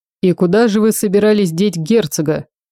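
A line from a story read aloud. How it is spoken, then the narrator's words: Smirking, faint emotion. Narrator (Russian): хмыкнул ... впервые проявляя какое-то подобие эмоций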